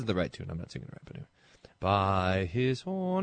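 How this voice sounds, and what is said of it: Usual voice. Nothing is said of it.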